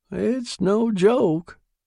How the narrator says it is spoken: cried Nibley

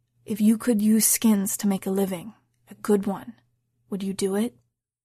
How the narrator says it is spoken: After a moment's deliberation, he leaned down and whispered

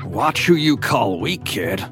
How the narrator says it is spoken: he grumbled

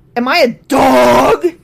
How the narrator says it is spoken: He roared at David

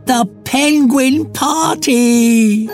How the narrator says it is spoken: yelled Fluffy, suddenly much perkier

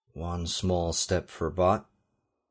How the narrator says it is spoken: he murmured, emulating Neil Armstrong's Apollo 11 saying

